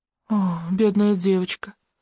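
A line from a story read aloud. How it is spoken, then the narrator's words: Woman's sigh. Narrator (Russian): вздохнула женщина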